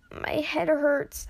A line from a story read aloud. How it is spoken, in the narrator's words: Ash croaked out